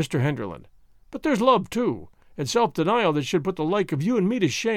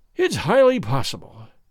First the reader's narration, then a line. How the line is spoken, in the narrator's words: said he, sighing